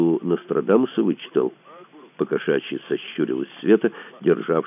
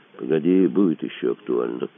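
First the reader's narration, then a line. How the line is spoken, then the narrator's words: Gloomy, perversely gleeful promise. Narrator (Russian): мрачно пообещал Шишкодремов с видом садиствующего пророка, получавшего извращенное удовольствие от черных предсказаний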